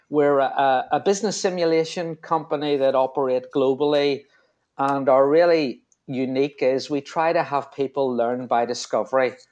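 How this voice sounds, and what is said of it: Belfast Northern Irish accent. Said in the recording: “From my accent, you probably realise I'm from Belfast.”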